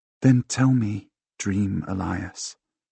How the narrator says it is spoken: she murmurs

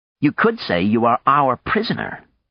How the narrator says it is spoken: Maya pointed out sharply

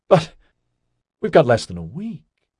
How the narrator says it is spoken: Tanya Yagol spluttered

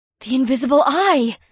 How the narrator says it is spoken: Janine said in an awestruck tone

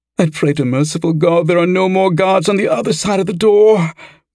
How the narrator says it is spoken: moaned Gwynedd

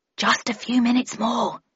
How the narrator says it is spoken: replied Raffles quietly

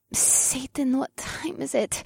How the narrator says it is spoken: Morgana gasped

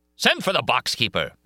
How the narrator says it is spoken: shouted

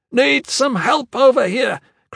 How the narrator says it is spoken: Kruxa shouted

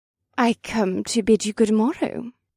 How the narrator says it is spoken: Sarisha said in her same fake, sweet voice

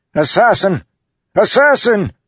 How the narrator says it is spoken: Rohaon, pale-faced and stammering, backed away from the two of them and began shouting

